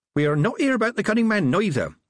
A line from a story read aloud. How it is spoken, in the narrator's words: Nanny Ogg added cheerfully